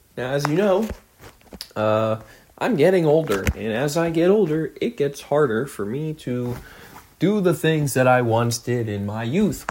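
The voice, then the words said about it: Strained, hoarse voice. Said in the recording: “I hurt my voice... lose my stupid voice”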